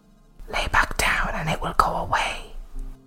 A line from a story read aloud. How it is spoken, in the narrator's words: whispered